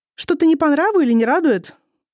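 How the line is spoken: Waitress asking loudly. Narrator (Russian): громко спросила подошедшая официантка

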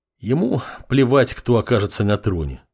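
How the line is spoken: Sighing. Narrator (Russian): вздохнул темный подмастерье

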